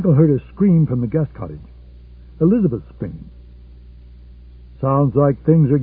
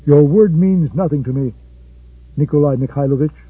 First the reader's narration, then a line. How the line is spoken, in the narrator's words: Very calmly said